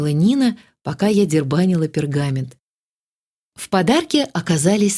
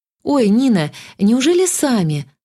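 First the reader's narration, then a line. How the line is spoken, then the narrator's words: Delighted grateful exclamation. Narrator (Russian): воскликнула выражая крайнюю степень восторга и благодарности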